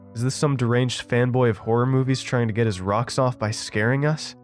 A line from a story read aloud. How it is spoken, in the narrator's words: Evan shouted